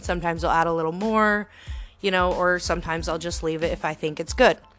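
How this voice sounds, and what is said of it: Talking very fast. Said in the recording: “I'm talking too fast”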